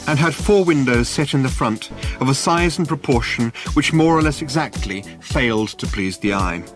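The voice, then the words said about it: Reading in British accent. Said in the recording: “You almost have to read it with a British accent”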